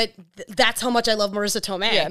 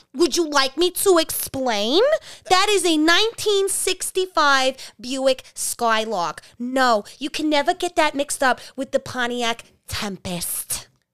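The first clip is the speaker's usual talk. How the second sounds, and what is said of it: Imitates another person's voice. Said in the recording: “You do that impression like way too good. ... it's almost scary how good that impression is.”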